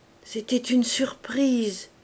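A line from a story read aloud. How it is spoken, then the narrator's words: Sad murmur, muffled. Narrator (French): murmura Madame Campardon, le cœur gros, en se cachant la face dans le gilet de son mari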